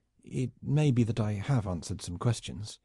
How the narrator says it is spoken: murmured

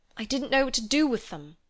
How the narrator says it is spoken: he cried, and his voice was that of an anxious boy

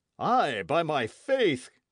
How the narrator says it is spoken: cried Bennet

